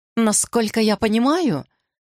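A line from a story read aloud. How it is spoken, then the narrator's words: Babbling, murmuring voice. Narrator (Russian): журчащим голосом сказала Селине Йоми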